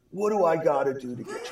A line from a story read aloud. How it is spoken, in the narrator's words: I begged